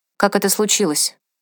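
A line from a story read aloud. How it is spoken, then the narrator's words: Steady, composed voice. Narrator (Russian): спросила она, когда почувствовала, что сможет сказать это ровным голосом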